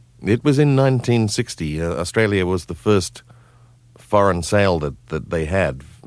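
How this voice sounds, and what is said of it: Faint remaining Australian accent. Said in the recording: “our listeners could probably hear the remains of your Australian accent”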